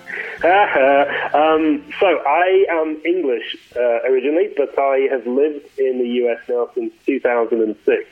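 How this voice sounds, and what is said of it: English accent with Australian tinge. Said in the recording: “I was born and raised in the north of England. And my accent's a little screwy because after I graduated university, I went to live in Australia ... I thought you were Australian ... posh my accent up”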